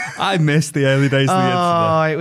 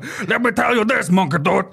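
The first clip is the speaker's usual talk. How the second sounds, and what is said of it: Impression of Strong Bad cartoon voice. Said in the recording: “That's a very good impression. Of Strong Bad.”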